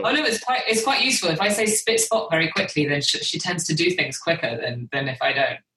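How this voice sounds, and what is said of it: British accent. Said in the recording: “I'm the one with the British accent.”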